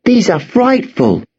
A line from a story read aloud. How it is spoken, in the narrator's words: Emma exclaimed